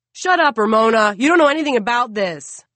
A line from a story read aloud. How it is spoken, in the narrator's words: One man, shouts